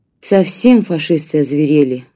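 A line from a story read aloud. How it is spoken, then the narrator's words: Sighing. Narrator (Russian): вздохнула Марина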